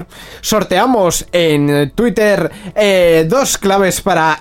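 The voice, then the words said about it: Radio announcer voice. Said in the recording (Spanish): “con esta voz de locutor.”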